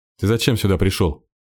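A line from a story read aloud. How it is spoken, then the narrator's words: Irritated question. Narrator (Russian): раздраженно спросил Кирилл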